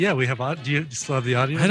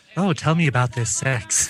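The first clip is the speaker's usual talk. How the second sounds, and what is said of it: Decent Bebe Neuwirth impression. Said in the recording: “not a bad Bebe Neuwirth impression”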